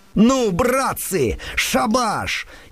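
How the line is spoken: Naive, frightened shout. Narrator (Russian): наивный, испуганный голос в двух шагах от князя Андрея закричал

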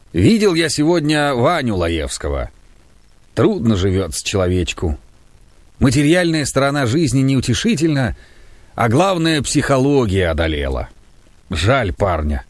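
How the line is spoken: Sighing. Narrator (Russian): вздохнул и сказал

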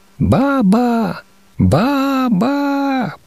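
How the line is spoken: Shrill little child's calls. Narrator (Russian): продолжала покрикивать визгливым голоском малютка

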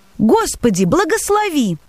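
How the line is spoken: Exclaiming. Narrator (Russian): воскликнул он

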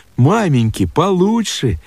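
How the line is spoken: Cheerful sister. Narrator (Russian): Сестрица весело говоря

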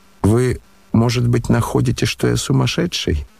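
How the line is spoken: Strange laugh. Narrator (Russian): он, странно засмеявшись

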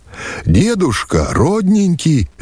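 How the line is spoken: Cheerful shout. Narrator (Russian): весело кричит он

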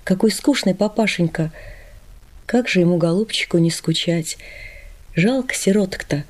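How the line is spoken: Whispered. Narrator (Russian): Маришка мне шепнула

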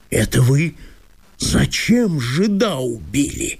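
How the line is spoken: Thunderous menacing exclamation. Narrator (Russian): громогласно воскликнул Чертопханов, грозно

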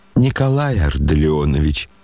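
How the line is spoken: Almost tender voice. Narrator (Russian): чуть не умиленным голосом обратился Лебедев к Коле

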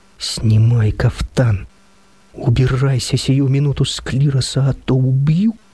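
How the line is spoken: Strangled hissing wheezy moan. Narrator (Russian): Регент Егор Михайлович придушенным шипящим хрипом простонал

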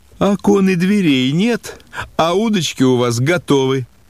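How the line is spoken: Mother laughing cheerfully. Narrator (Russian): Мать смеялась и весело сказала

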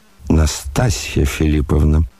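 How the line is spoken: Trembling voice. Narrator (Russian): дрожащим голосом проговорил Афанасий Иванович

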